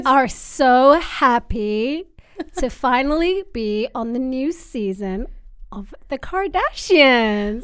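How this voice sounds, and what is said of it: Kourtney Kardashian impression, lots of pauses. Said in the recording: “impersonates Kourtney Kardashian ... She does loads of pauses”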